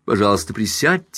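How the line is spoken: Plain. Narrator (Russian): сказала она Каупервуду

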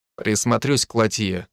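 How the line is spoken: Dry reply. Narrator (Russian): сухо ответил

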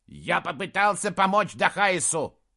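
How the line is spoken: Troll's barking roar. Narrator (Russian): рявкнул в ответ тролль

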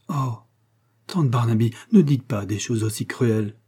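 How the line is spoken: Hurt exclamation. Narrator (French): s'écria Agnès, très blessée

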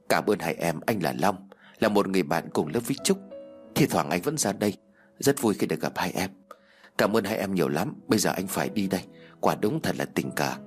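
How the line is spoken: Soft laugh. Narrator (Vietnamese): Anh ta khẽ cười

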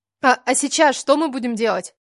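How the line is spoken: Indignant question. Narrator (Russian): Возмущенно спросила я

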